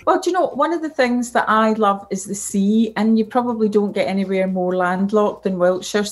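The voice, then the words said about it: Scottish accent. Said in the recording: “despite the accent. That always throws people because they think I'm still in Scotland”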